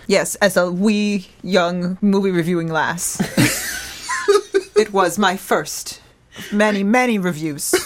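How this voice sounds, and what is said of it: Uneven put-on accent. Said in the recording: “Is it my accent? Because it's uneven? ... uneven wasn't the aspect of your accent that I was picking up on there”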